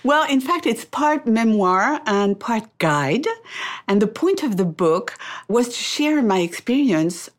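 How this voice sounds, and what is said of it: French accent. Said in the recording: “I love this French accent of yours”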